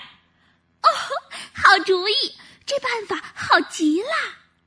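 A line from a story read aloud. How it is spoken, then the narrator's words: Happy small creature's cry. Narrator (Chinese): 小蚂蚁高兴地叫起来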